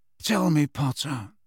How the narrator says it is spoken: said Snape softly

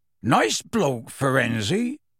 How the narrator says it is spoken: said gruffly

